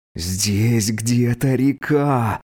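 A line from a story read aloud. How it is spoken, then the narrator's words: Hiss through clenched teeth. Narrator (Russian): снова прошипел сквозь стиснутые зубы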